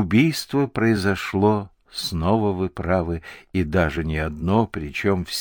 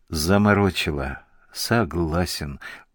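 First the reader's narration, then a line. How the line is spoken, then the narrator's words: Dejected. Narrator (Russian): уныло кивнул Панкратов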